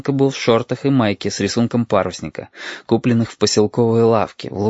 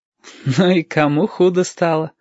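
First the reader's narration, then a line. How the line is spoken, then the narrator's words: Laughing. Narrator (Russian): засмеялся Юртанка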